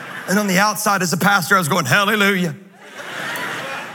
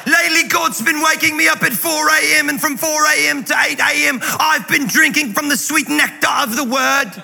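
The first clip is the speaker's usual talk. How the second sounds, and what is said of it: Impersonation that sounds like a pirate. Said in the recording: “my Christine Kane impersonation sounds like a pirate”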